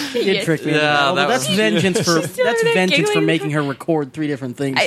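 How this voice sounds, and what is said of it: Usual voice. Nothing is said of it.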